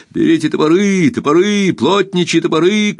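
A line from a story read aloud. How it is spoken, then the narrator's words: Shouting. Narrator (Russian): кричал он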